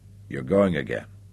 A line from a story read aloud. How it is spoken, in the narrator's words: said softly